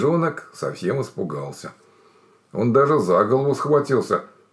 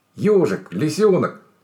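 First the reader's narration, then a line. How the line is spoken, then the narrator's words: Guilty bear cub. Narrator (Russian): сказал медвежонок виноватым голосом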